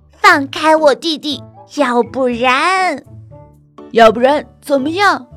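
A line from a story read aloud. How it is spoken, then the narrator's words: Unafraid question. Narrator (Chinese): 大个子问，好像一点儿也不害怕西蒙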